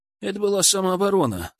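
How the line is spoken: Calm reply. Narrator (Russian): спокойно ответил Илья

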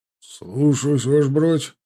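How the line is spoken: Barked. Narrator (Russian): рявкнул тот

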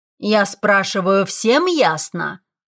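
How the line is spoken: Barked. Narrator (Russian): рявкнул декан

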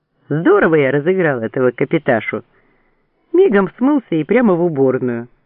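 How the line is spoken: Laughing loudly. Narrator (Russian): хохотал Сайманов

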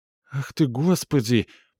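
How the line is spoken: Moaning. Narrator (Russian): простонала Габриэль

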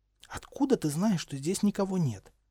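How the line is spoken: Whispered question. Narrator (Russian): шепотом спросила Гермиона

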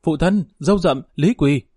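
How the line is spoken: Frightened, quiet. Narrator (Vietnamese): Phán Nhi sợ hãi nhỏ giọng nói

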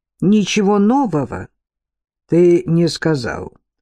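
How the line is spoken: Gloomy confirmation. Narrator (Russian): мрачно подтвердил друг Оушена, 15-й или 16-й по счету

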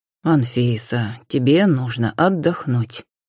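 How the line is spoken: Soft. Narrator (Russian): мягко произнес Иван

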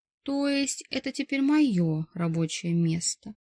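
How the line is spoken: Explaining. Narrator (Russian): пояснила Ира

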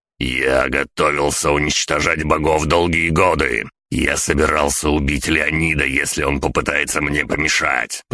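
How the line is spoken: Growling. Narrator (Russian): прорычал Генри

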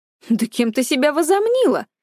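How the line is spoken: Indignant scolding. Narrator (Russian): возмущенно выговаривала Чхвей-Мигён

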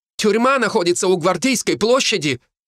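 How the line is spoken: Headmistress shouting after. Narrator (Russian): выкрикнула директор школы мне вдогонку

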